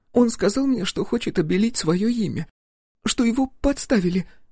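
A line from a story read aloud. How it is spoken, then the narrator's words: Sobbing. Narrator (Russian): всхлипнула Варя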